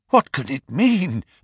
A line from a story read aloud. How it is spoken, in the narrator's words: I gasped